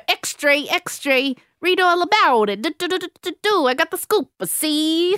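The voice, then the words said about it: Put-on old-timey Queens newsboy accent. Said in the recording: “That's quite a Queens accent, isn't it? ... I thought you were trying to do Southern. ... It's like a boy in a news cap. Kind of Southern, but also on the streets of the city ... It's a great hybrid.”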